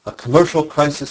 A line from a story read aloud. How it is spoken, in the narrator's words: he said